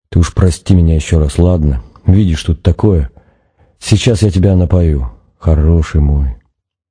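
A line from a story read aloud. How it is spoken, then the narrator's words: Whisper. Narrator (Russian): Нанос зашептал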